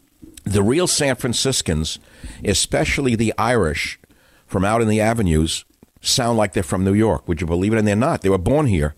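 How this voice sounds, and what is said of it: New York accent. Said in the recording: “the New York accent, which I, of course, exemplify”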